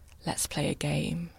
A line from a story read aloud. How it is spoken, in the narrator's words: he whispered